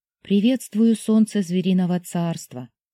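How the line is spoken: Soft. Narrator (Russian): мягко произнесла Сяо Мин

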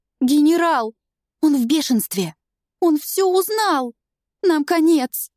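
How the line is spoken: Sobbing young woman. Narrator (Russian): Девица начинает рыдать

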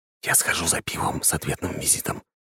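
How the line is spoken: Whispered in ear. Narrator (Russian): шепнул на ухо жене

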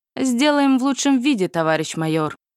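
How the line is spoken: Snorting. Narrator (Russian): хмыкнул он

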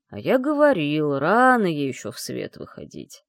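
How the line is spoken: Grumbling father. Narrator (Russian): проворчал папа

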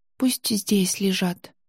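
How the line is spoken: Quiet reply. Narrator (Russian): тихо ответила

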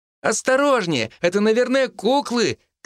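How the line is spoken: Girl shouting. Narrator (Russian): кричала девочка

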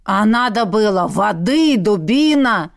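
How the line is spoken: Troll growling. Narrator (Russian): Вновь зарычал тролль

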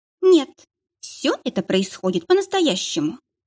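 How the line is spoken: Plain. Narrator (Russian): сказала женщина

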